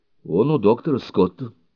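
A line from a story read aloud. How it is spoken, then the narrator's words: Calm. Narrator (Russian): спокойно сообщила мисс Кинсейл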